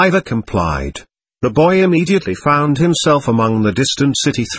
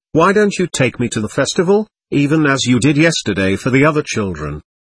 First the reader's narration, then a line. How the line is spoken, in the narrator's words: he said scornfully